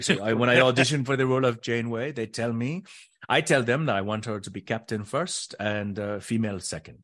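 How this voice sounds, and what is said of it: French-Canadian accent imitating another person. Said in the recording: “I'm doing her French-Canadian accent”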